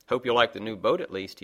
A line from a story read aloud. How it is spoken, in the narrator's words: he said curtly